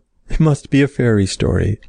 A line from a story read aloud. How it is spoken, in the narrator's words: laughed the little elf